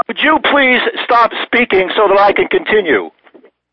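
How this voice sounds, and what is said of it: Raised, yelling voice. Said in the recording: “quit yelling, please? ... Quit yelling?”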